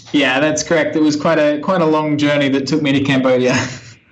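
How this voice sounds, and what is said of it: Australian accent. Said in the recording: “you have a very different accent. So you're actually from Australia”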